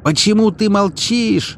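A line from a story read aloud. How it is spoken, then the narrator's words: Furious yell. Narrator (Russian): завопил Галуев, в ярости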